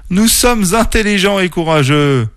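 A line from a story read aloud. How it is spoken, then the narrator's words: Exclaimed. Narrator (French): s'exclama Tacha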